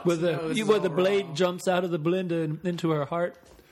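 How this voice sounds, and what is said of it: Bad put-on British accent. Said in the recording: “It's a really British accent. ... I'm a horrible British accent.”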